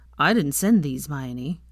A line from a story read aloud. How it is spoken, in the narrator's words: Theo snorted, and then said